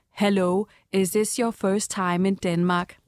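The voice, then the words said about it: English with a Danish accent. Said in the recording (Danish): “en mand med dansk accent”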